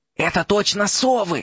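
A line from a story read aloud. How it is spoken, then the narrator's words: Hoarse wheeze. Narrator (Russian): просипел Рон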